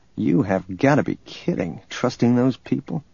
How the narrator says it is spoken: Han muttered

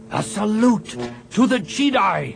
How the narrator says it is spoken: he shouted

